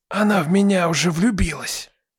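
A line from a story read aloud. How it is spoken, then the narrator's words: Loud whisper. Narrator (Russian): Громким шепотом поделился Тихон с капитаном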